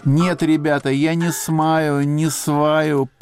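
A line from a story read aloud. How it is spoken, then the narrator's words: Drunken moan. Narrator (Russian): пьяновато простонала Поля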